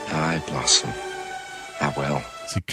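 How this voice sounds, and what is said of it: Poor attempt at Scottish accent. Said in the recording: “This is the only attempt he made at a Scottish accent. ... He sucks. ... Sounds terrible.”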